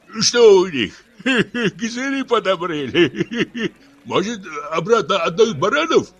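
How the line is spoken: Old men guffawing. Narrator (Russian): старики захохотали

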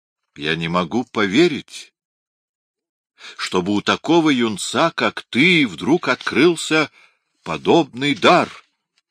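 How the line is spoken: Hoarse whisper. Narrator (Russian): хрипло прошептал Гирландайо

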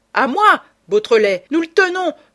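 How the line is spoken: Bellowed. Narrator (French): vociféra Ganimard

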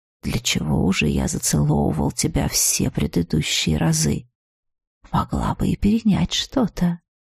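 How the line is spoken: Hoarse whisper in ear. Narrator (Russian): Он … хрипло шепнул на ухо

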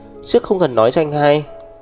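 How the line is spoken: Exclamation. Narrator (Vietnamese): Thiên Tuyết kêu lên

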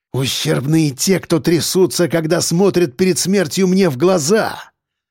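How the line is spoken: Angry hiss. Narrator (Russian): зло прошипел Крюков

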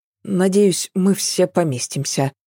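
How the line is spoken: Muttered. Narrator (Russian): пробормотала она

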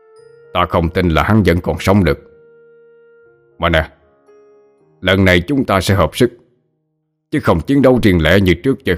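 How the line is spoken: Resentful, sulky. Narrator (Vietnamese): Sát Hoàng hậm hực

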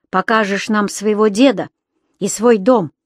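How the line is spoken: Growl. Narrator (Russian): прорычал Ведер

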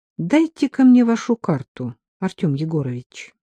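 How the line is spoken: Sudden request. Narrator (Russian): неожиданно попросил

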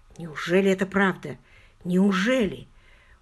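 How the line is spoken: Slow frightened childlike question. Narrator (Russian): Очень медленно, очень испуганно и совсем по-детски она спросила

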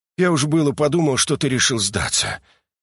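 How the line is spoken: Noisy exhale, timid smile. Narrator (Russian): шумно выдохнул лейтенант, несмело улыбнувшись

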